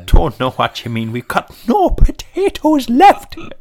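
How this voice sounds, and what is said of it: Very bad put-on Irish accent. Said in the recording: “That is the worst Irish accent I've ever heard in my life.”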